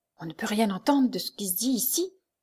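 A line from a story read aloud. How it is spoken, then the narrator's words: Very low murmur. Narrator (French): murmura Soliveau d'une voix très basse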